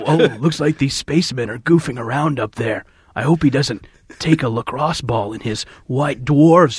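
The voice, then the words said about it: Liam Neeson with bad Brooklyn accent. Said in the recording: “it's me, Liam Neeson from Brooklyn, New York ... Good old boy from Brooklyn ... Give back my dialect coach”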